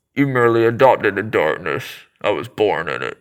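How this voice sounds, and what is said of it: Bane impression, masked voice. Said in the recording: “best Bane impression ... with the mask over his face”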